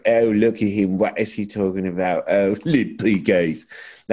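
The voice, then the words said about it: Put-on accent, done well. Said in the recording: “that's a really good accent ... You're very good at that.”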